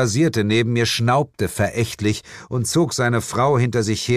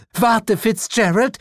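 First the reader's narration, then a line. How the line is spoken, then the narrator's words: Shout. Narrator (German): rief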